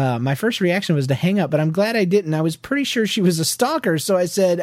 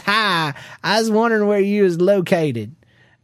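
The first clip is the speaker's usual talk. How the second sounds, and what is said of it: Big Southern US accent. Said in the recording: “this lady with a big southern accent says”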